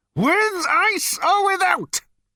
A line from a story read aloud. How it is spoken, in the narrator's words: bellowed Number Two